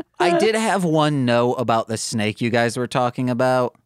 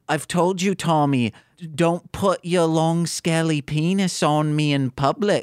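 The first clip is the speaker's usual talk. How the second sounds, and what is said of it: Attempted Australian accent, sounding Liverpudlian. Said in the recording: “I thought my Cockney accent was bad. You've got like a Beatles accent going on here. ... Yeah, you've got like New Zealand.”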